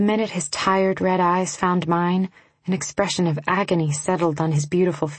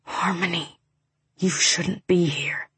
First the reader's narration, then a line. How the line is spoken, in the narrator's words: dragged in a long breath and whispered